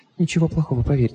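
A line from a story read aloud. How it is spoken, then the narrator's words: Whisper. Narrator (Russian): прошептала она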